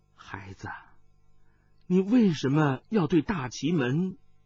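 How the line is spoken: Abruptly cut off. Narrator (Chinese): 他似是有许多话要说，但是只说了半句便戛然而止

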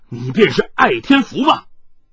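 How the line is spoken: Startled, loud. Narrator (Chinese): 霹雳火心头一震，大声道

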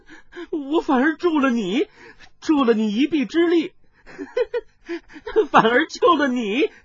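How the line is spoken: Stunned, then wild laughter. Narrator (Chinese): 温黛黛身子一震，顿时又目瞪口呆，过了半晌突然狂笑道

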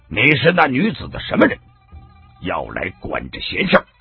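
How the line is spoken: Monk's stern sharp voice. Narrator (Chinese): 和尚厉声的说道

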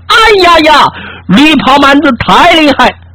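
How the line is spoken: Exhausted shout. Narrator (Chinese): 杀得齐丽丽手酸腿软，大喊一声

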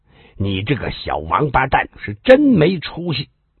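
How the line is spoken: Snort, angry scolding. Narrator (Chinese): 红杏花哼了一声，怒声的骂道

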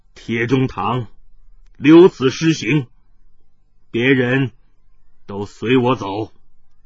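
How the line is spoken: Deep, low voice. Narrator (Chinese): 云逸直到天风吹干了他目中的泪珠，才沉声道

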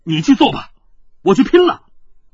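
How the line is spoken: Angry. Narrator (Chinese): 云峥怒道

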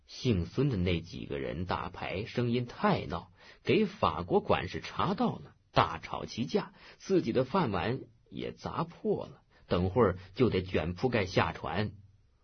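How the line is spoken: Hoarse voice. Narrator (Chinese): 阿刘哑声告诉

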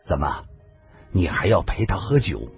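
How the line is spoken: Cold, stern. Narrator (Chinese): 杨林沉下了脸，冷冷的说道

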